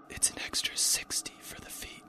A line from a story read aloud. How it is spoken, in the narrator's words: whispered into a sweaty ear